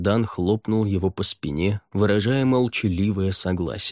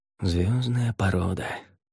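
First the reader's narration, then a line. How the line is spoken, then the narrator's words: Muttering. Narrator (Russian): пробормотал он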